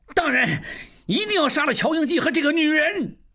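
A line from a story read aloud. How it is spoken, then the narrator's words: Shouting. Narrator (Chinese): 旺柏大叫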